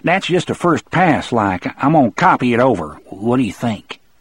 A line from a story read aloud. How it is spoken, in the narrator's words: said hastily